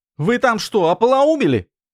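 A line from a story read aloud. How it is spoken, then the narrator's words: Yelling. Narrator (Russian): заорала она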